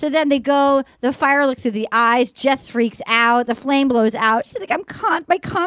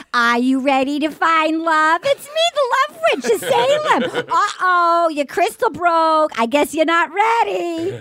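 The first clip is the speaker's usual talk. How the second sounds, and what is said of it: Thick put-on Massachusetts accent. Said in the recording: “the one with the thick Massachusetts accent ... I love a Massachusetts accent”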